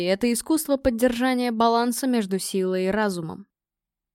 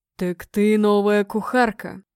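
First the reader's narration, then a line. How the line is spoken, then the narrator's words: Deep booming bass. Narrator (Russian): прогрохотал он низким басом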